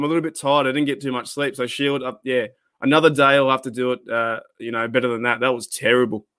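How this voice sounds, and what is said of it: Usual voice. Nothing is said of it.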